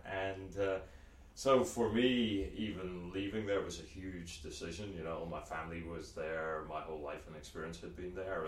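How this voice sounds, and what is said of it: Northern Irish accent. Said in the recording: “as you can probably tell from the funny accent, I grew up in Belfast, Northern Ireland”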